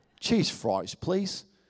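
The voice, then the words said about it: Poor attempt at Australian accent. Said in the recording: “I just don't have an Australian accent, but wouldn't that be awesome if I did? ... that probably wasn't even like, that was like Australian Arkansas or something.”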